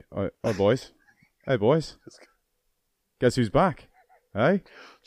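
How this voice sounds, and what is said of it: Put-on Australian accent. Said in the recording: “What's the Australian version ... You do the Australian voice.”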